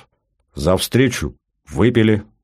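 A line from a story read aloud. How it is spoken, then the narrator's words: Plain. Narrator (Russian): сказал Батоныч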